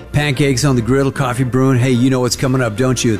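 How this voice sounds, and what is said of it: Put-on cowboy accent. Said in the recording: “Got me a cowboy accent.”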